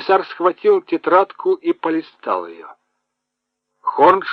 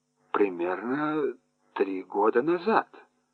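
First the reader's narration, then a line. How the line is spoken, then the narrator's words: Mumble. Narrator (Russian): пробормотала Вилли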